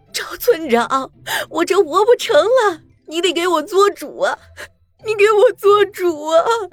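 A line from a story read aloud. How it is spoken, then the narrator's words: Tearful woman. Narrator (Chinese): 陈寡妇一副哭腔说道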